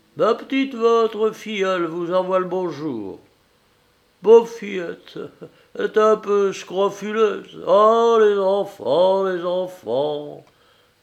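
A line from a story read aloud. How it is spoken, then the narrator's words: With a sigh. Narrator (French): fit avec un soupir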